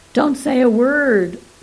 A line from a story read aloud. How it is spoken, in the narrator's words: cried Three Sequelae